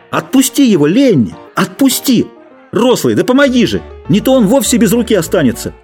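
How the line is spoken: Continued shouting. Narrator (Russian): Джордж все кричал

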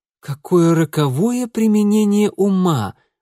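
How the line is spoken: Exclaimed. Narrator (Russian): воскликнул он

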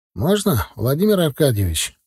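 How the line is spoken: Cheerful question. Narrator (Russian): бодро спросил он

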